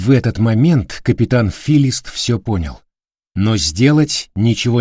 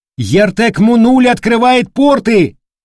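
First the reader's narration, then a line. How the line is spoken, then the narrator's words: Lookout shouting. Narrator (Russian): вперед смотрящий не закричал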